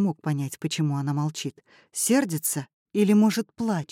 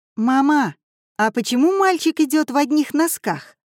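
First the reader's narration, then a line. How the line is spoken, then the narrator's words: Child's joyful yell. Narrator (Russian): радостно завопил мальчишка лет 6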